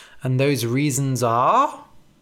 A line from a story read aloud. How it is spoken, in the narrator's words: Billy chuckled